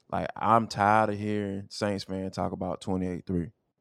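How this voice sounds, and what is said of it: Atlanta dialect. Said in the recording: “You see how my my, my lingo changed?... I'm morphing into my Atlanta dialect right now, bruh.”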